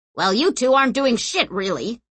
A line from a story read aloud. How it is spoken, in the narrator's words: snapped Orso